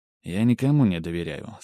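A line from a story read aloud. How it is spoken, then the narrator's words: Calm reply. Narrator (Russian): спокойно ответил я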